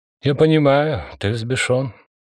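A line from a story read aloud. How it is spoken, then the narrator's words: Conciliatory tone. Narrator (Russian): примирительным тоном сказал Липай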